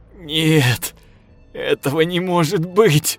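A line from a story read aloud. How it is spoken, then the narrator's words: Sobbing. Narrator (Russian): Я зарыдал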